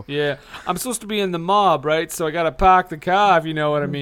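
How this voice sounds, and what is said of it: Put-on Boston accent. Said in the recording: “has a Boston accent ... I'm doing a Boston accent.”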